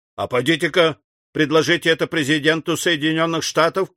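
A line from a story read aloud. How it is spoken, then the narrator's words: Shout. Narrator (Russian): крикнул Мастон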